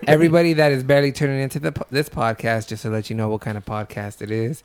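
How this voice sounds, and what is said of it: Low, under-the-weather voice. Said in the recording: “What's going on with your voice, by the way? ... It sounds sexy. ... my voice is kind of down and why I feel under the weather ... Bring back the high voice.”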